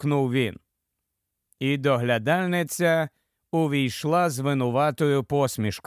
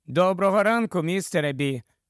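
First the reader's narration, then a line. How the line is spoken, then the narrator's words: Cheerful. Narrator (Ukrainian): мовила весело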